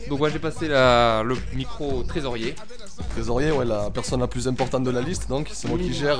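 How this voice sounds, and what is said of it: Exaggerated southern French accent. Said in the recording (French): “Avec un euh, bel accent, monsieur ... Ça sonne le sud ... il joue le thème à fond ... les cigales derrière et tout.”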